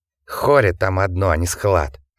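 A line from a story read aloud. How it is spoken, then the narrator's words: Angry hiss. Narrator (Russian): рассерженный змеей шипел Ворон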